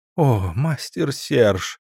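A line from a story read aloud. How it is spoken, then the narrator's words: Trembling moan. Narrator (Russian): простонала Элиан, дрожа от волшебных ощущений грубого проникновения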